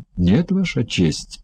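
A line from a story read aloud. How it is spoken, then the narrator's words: Sad. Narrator (Russian): печально ответил Тао Гань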